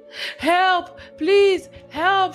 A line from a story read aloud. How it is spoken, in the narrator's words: screamed